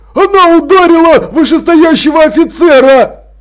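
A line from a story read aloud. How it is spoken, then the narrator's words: Yell. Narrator (Russian): завопил он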